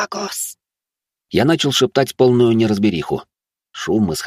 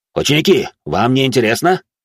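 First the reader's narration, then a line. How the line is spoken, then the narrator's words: Instructor barking. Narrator (Russian): гаркнул инструктор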